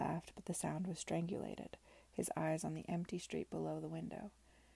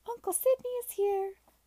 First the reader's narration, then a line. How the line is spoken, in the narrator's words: exclaimed Alicia, triumphant to have announced it first